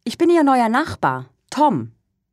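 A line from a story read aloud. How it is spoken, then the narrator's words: Calling upward. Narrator (German): ruft er nach oben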